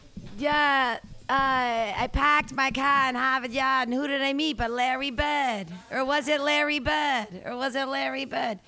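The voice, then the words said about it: Put-on Boston accent. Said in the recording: “the way to talk like a Boston person”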